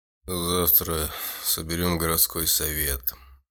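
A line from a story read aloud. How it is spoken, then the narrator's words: Weary. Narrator (Russian): устало промолвил бюргермейстер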